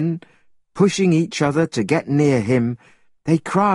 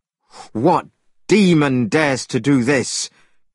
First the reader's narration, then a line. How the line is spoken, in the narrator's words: cried Monkey